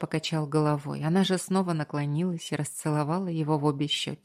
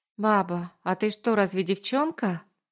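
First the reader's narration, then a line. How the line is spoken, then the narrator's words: Skeptical question. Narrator (Russian): Уточнил с таким скептисом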